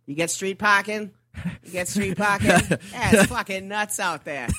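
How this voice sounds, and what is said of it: Thick Boston accent. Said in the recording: “Like the thickest Boston accent.”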